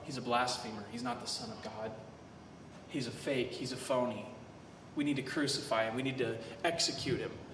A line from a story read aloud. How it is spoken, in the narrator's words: the Pharisees started whispering in the crowd